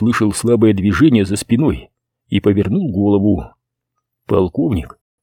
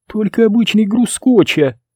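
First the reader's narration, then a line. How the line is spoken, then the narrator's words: Giggling reply. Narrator (Russian): ответила она, хихикнув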